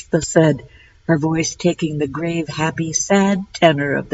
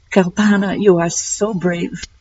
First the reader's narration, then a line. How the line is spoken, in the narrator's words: she said, her voice choking up